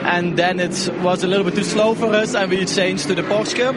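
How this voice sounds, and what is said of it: Strong Flemish Belgian accent. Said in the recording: “Now, that is an epic accent. ... that is fully Dutch-Belgian, isn't it? ... full on. ... With the kind of the rolling of the back of the throat that only the Dutch and the Belgian Flemish can do. ... I say Flemish, isn't it? Yeah, it's a Flemish bit, yeah. Literally, Flemish.”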